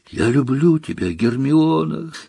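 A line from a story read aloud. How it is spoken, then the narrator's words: Weary, slumped. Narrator (Russian): сказал Рон, обмякнув в кресле и устало потирая глаза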